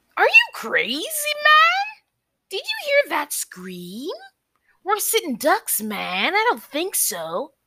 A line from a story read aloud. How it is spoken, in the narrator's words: one straggly man piped in